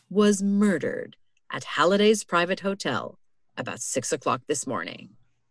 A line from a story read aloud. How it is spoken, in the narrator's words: said Lestrade gravely